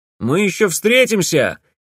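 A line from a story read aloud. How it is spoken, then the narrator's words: Shouting after someone. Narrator (Russian): крикнул ей вдогонку Грановский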